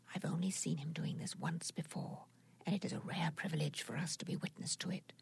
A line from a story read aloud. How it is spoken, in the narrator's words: whispered the otter